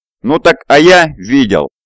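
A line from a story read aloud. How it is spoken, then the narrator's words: Yelled. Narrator (Russian): заорал Уолли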